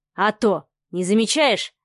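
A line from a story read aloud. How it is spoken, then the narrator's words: Snorting. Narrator (Russian): хмыкнул Савелий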